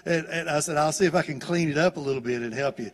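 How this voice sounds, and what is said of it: Southern American English accent. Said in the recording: “It's the southern dialect of English.”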